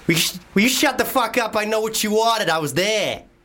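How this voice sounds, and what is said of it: Good Boston American accent. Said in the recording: “American accent... Boston... that's actually quite good”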